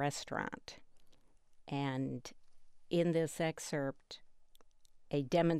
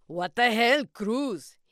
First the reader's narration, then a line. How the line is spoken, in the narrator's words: He said hotly